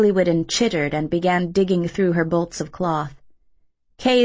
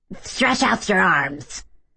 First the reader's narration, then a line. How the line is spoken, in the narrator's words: the seamstress croaked